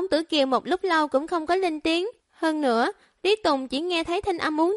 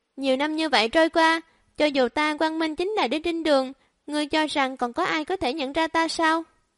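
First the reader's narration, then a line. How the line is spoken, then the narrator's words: Stranger's sighing voice. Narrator (Vietnamese): thanh âm xa lạ thở dài nói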